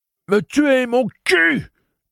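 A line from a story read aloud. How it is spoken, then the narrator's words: Calculated yell. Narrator (French): hurla Eddie, mais une hurlante calculée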